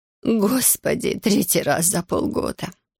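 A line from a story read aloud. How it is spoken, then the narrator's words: Despairing woman muttering. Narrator (Russian): в отчаянии пробормотала женщина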